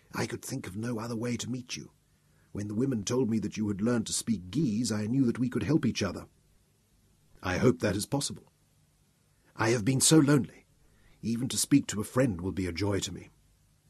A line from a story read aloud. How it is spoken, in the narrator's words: smiled up at me and whispered back